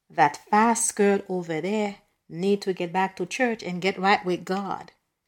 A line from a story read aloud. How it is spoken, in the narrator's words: Miss Savannah May stage whispered